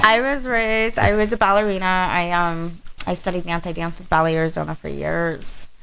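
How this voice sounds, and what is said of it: Valley girl way of speaking. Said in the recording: “she sounds like a valley girl”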